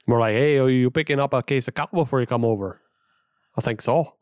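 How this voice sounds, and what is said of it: Put-on Upper Midwest Canadian-sounding accent. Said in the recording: “Not with that accent ... Feels a little more Canadian.”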